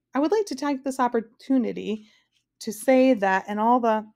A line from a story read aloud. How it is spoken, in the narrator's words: started Milo timidly